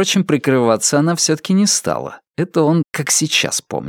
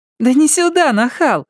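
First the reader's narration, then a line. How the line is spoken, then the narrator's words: Laughing loudly. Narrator (Russian): Мэри расхохоталась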